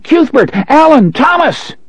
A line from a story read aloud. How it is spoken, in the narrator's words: His scream sounded puny and thin in the heat